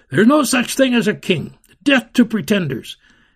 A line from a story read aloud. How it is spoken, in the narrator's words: Someone in the boxes shouted